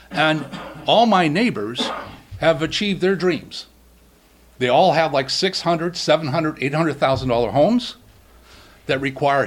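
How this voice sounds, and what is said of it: Central Massachusetts accent. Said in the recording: “where I grew up in central Massachusetts. You probably can tell by my accent.”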